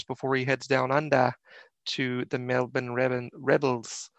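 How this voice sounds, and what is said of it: Poor imitation of Australian accent. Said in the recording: “That was probably a really awful Australian accent.”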